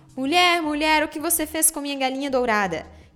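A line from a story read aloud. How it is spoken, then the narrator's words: Loud cry. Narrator (Portuguese): João ouviu bradar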